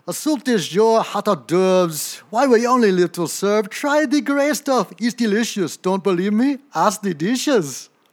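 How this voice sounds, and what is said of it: Sung lines in put-on French accent. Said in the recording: “I've got to find my French accent ... That was that French accent. That was pretty good there, though ... French accent was good. I don't know about the singing, though.”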